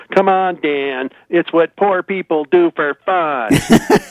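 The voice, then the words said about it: Imitates another person's voice. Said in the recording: “That's a pretty good Roseanne imitation.”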